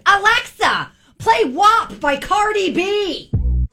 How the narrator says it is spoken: out of nowhere, my son shouted

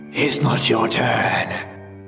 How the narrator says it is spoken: the oracle hissed

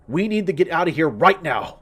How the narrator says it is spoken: I shouted

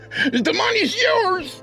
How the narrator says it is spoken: He yelled desperately

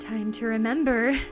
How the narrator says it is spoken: the boy giggled

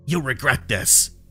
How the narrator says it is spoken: Sam spat

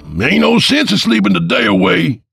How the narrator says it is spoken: Papa roared

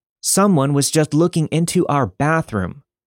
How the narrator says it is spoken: yelling

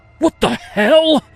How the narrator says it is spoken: screamed

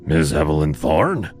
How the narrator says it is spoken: His voice was a rough rasp, like sandpaper against bone

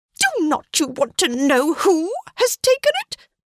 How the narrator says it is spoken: cried his wife impatiently

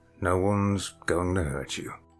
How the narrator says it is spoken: he said as gently as he could in his gravelly, crackling voice

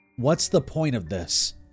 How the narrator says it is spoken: I asked in a low voice

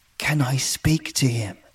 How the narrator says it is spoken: asked, my voice barely above a whisper

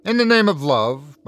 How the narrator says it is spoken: my grandfather pleaded

